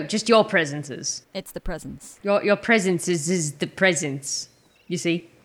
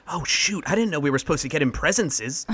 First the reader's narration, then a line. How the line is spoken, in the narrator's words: I lean in and whisper to Malachi